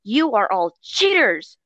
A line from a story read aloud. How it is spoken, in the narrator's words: exclaims